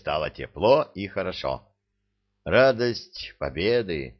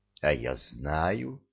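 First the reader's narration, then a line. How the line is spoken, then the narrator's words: Calm and dignified. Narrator (Russian): ответила моя милая-милая Белка, спокойно и с достоинством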